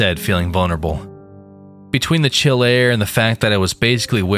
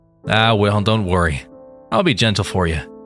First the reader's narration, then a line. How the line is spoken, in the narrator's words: the doctor chuckled out